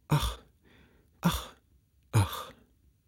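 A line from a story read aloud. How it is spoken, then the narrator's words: Repeated sighing. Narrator (German): seufzte einmal übers andere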